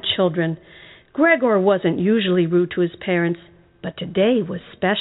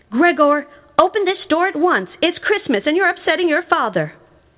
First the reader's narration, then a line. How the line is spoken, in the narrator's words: his mom knocked on the door and yelled